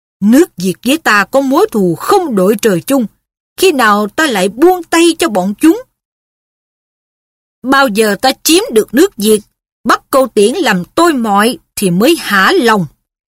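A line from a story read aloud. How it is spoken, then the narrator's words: Loud, hateful scolding. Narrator (Vietnamese): Phù Sai vẫn chưa hết căm thù, lớn tiếng mắng Bá Hy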